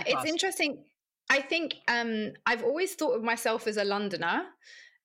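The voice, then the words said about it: British accent. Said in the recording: “you speak with a British accent”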